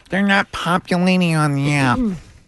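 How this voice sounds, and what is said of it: Nerdy IT guy voice. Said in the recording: “Can you say that in an IT nerd voice?”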